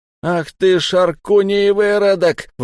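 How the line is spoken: Howled. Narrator (Russian): взвыл Зиан

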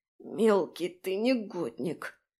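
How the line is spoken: Strained, touched retort. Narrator (Russian): выдавила, понимая, что за шуткой феи скрывается искренняя беспокоенность

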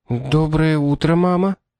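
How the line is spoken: Confused, astonished mumble. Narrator (Russian): Растерянно пробормотала Шарлотта, пораженная не только неожиданным приездом Кэролайн, но и ее новым головным убором

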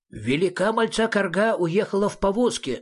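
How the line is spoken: Plain. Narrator (Russian): сказал Величьян

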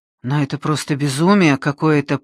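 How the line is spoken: Muttering. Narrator (Russian): пробормотал он

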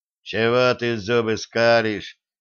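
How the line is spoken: Displeased grumble. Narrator (Russian): недовольно проворчал Кузьмич

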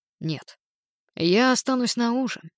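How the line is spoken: Gloomy reply. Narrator (Russian): мрачно ответил Нил

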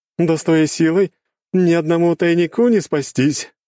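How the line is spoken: Loud laughter. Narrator (Russian): хохотала Надежда

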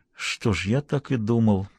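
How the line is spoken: Muttered. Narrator (Russian): пробормотал Хэммонд

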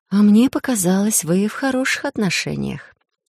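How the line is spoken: Insinuating. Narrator (Russian): вкрадчиво заметила

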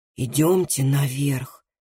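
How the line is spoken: Whisper. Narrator (Russian): прошептал Андреас

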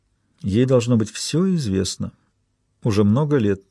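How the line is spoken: Quiet. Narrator (Russian): тихо сказала Берилл

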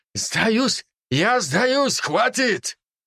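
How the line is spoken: Man shouting. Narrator (Russian): Мужчина закричал

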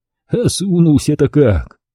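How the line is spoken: Sighing. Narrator (Russian): Вздохнул

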